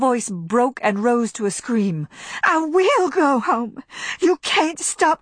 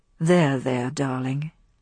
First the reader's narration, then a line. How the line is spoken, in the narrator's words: he said softly